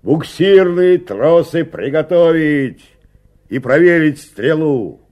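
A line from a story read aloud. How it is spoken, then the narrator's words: Shouting from a distance. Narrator (Russian): Иван Трофимович еще с крутого берега закричал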